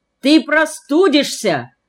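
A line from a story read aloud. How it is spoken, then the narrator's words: Shouted sternly, aunt. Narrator (Russian): закричала мне строго тетя Геля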